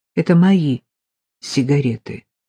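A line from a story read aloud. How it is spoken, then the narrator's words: Calm. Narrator (Russian): спокойно сказала Полина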